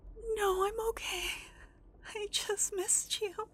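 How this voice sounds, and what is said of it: Emotional, tearful voice. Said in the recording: “I told myself I wouldn't get emotional”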